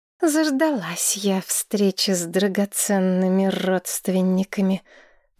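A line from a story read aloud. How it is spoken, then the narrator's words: Through gritted teeth. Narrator (Russian): процедила Маргарет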